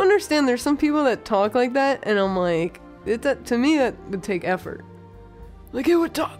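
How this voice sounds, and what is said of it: Usual voice. Nothing is said of it.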